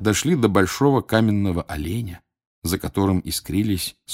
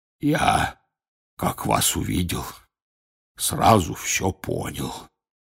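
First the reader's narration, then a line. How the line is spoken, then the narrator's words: Hoarse voice. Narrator (Russian): раздался почему-то охрипший голос Хагрида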